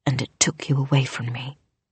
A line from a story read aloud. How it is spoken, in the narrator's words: her mother whispered